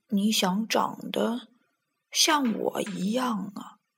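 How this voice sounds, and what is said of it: Quiet, soft-spoken voice. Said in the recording (Chinese): “小声”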